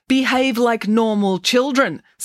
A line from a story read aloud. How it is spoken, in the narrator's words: snapped Professor Maynard